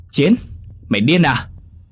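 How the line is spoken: Yelling. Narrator (Vietnamese): Anh Tùng hét lên

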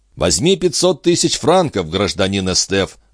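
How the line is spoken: Laughing. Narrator (Russian): засмеялся Пешегрю

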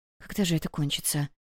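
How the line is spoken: Muttered. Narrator (Russian): пробормотала Вивин

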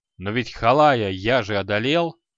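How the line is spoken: Barked. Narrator (Russian): рявкнул Креол

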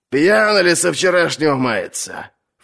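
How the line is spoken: Snort. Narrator (Russian): фыркнул сир Давен

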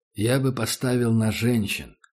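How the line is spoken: Quiet man. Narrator (Russian): сказал таджик негромко

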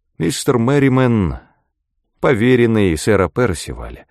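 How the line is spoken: Calm. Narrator (Russian): произнес он спокойно

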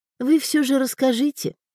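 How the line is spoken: Sad, smiling. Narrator (Russian): грустно улыбнулась Элеонора

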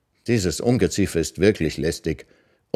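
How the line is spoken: Muttered. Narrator (German): Kamai Khan, Arubanais Mutter, murmelte

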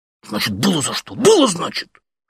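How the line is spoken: Whispered shout. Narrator (Russian): шепотом же крикнул он

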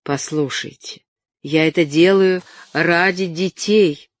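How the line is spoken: Plain. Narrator (Russian): сказал он

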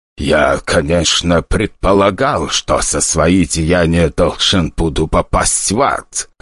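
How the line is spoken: Ancient man's wry snort. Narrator (Russian): хмыкнул столь древний представитель людей, что он уже давно должен был оказаться в царстве мертвых

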